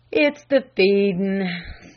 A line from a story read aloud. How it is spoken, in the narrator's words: sighed the old butler